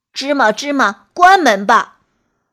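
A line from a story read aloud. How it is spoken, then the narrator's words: Shouting. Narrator (Chinese): 对着大山喊道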